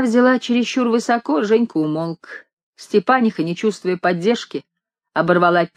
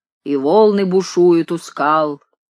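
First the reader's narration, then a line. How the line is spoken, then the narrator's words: Husky low bass. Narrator (Russian): Женька подхватил сиплым баском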